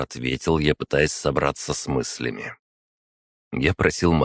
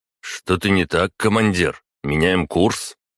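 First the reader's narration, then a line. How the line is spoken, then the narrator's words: Tense question. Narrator (Russian): Василий напряженно спросил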